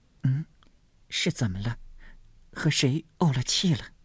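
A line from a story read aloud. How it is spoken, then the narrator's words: Repeated questioning. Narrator (Chinese): 连问几声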